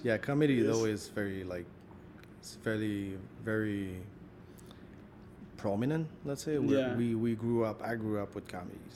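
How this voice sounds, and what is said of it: Quebecois French-Canadian accent. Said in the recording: “About the Quebecer people ... even the way you speak, even your accent is funny”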